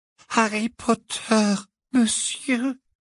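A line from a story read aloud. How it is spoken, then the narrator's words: Trembling squeak. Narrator (French): couina l'elfe, tremblant de la tête aux pieds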